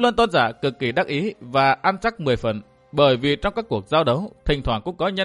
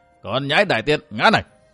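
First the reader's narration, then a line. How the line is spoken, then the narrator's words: Scornful loud laughter. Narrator (Vietnamese): Nhấp Luân Tôn giả cho là Đường Đỗ Quyên ngu ngốc cho nên cười lớn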